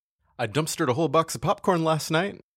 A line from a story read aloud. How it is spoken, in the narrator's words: the general hollers down from upstairs